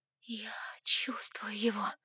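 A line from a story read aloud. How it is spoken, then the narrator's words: Whisper turning into moan. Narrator (Russian): прошептала я и застонала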